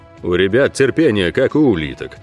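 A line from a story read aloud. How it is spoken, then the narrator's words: Low booming voice. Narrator (Russian): прогудел Ог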